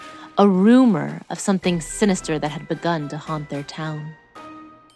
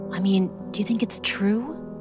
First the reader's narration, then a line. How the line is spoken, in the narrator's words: He whispered